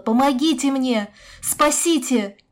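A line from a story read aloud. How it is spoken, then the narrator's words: Renewed, hopeful shout. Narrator (Russian): она с новыми силами закричала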